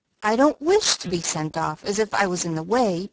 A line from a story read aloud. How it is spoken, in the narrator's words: began Amy, in an injured tone